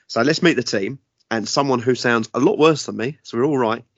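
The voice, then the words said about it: Croaky voice that keeps cutting out. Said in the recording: “I'm a bit croaky and my voice keeps disappearing today”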